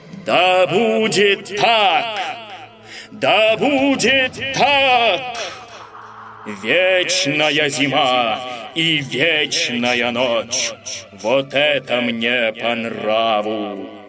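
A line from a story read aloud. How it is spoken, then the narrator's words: Loud amused proclamation. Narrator (Russian): Это позабавило горного короля, и он громко на всю вересковую пустошь возвестил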